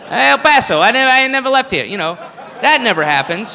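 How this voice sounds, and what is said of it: Usual voice. Nothing is said of it.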